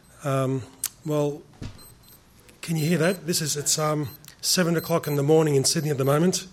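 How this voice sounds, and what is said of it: Strong accent, hard to understand. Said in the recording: “I hope you can understand the accent. It may be a little bit hard to comprehend”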